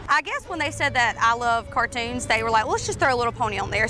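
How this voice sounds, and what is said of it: Southern South Georgia accent. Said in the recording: “we're from South Georgia. We kind of have an accent”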